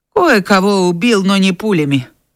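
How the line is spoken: Grim reply, old warrior. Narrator (Russian): мрачно ответствовал одноглазый воин

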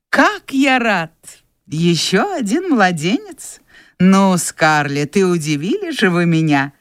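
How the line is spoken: Laughing. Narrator (Russian): Рассмеялся он

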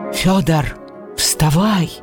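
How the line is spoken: Agitated old man muttering. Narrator (Russian): Взволнованно забормотал старик

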